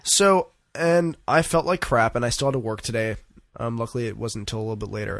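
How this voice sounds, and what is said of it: Slightly stuffed-up, congested voice. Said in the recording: “I couldn't breathe. ... phlegm in my chest. That's why I sound a little stuffed up”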